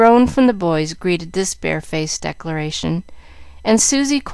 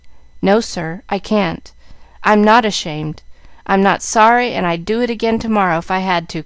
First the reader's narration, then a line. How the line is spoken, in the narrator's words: cried Jack, losing patience